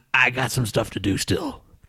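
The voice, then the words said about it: Deep imitation of another person's voice. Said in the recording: “That was a different impression of you, wasn't it? ... your voice was a little too deep for that one”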